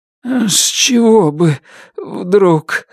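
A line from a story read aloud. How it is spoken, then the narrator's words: Shaky, trembling voice. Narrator (Russian): сказал Туз нетвердым голосом, дрожавшим в такт сбивчивому сердцебиению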